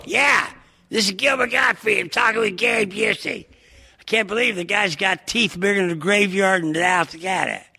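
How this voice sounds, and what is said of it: Gilbert Gottfried impression. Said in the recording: “Can you do an imitation of me”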